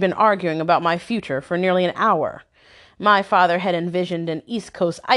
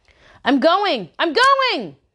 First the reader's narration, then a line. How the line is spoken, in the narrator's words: screamed